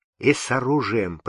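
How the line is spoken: Whisper. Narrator (Russian): прошептал боярин

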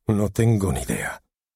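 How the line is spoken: Sighing. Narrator (Spanish): suspiró Michael

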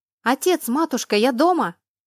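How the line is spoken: Shouting. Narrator (Russian): крикнула она

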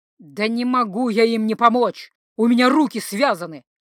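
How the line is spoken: Barked. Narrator (Russian): рявкнул Линнелер

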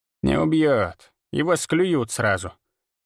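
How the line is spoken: Grumbling old woman. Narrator (Russian): проворчала бабка

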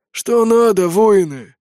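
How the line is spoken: Hoarse, defiant old voice. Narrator (Russian): спрашивает сипло старый суккуб, вызывающим тоном

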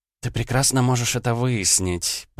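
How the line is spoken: Said through teeth. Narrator (Russian): процедила Ванда

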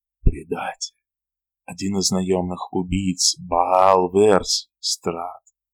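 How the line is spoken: Whisper. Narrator (Russian): прошептал он

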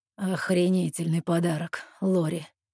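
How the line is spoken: Through gritted teeth. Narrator (Russian): цедит Эрик сквозь зубы

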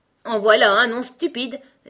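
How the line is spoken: Impatient declaration. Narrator (French): déclara le gros coco d'un ton impatienté

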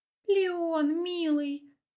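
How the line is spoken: Confused sobbing. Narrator (Russian): всхлипывает растерянная Снежана

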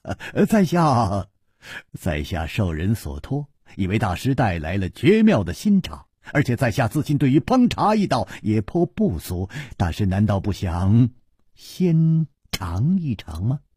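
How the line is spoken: Sudden smile. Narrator (Chinese): 楚留香忽然笑道

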